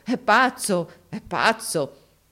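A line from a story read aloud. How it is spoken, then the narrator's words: Crowd exclaiming amid laughter. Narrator (Italian): tutti scoppiarono dalle risa, esclamando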